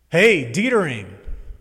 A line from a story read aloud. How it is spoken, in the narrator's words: yelled Billy